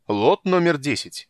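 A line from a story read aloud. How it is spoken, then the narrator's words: Loud announcement. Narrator (Russian): объявляет он громко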